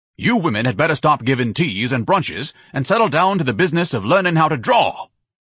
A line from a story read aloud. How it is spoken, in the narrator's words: Ignatius thundered